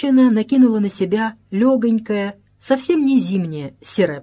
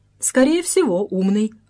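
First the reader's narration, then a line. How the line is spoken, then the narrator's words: Plain. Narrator (Russian): ответил Ожогин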